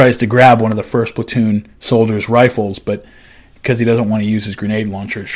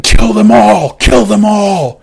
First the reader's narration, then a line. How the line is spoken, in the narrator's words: the monster sees this, and he runs over shouting